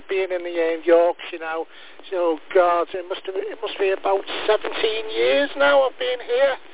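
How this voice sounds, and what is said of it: Liverpool accent. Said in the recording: “I'm originally from Liverpool ... We both haven't lost our accents.”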